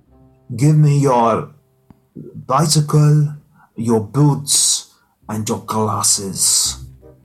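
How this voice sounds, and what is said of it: Arnold Schwarzenegger Terminator impression. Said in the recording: “a good Terminator impression? ... What, of Arnold Schwarzenegger? ... Not too sure. It sounds like Dracula.”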